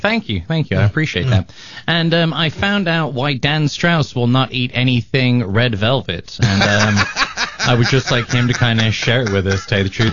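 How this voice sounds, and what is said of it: British accent. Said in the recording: “the man with the British accent”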